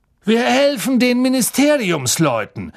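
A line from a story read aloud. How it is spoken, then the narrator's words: Calling out. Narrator (German): rief Mr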